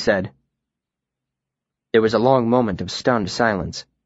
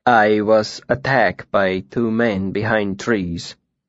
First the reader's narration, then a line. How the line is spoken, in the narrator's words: Tempe said calmly